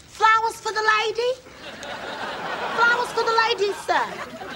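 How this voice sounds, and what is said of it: Put-on accent. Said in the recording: “lose the accent”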